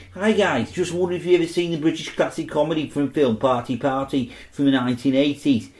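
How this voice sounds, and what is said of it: Liverpool accent. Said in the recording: “I'll do this in Liverpool accent”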